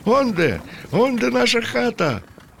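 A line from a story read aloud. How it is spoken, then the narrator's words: Cheerful shouting. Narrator (Ukrainian): закричав весело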